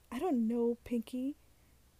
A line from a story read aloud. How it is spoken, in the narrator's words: Brick exclaimed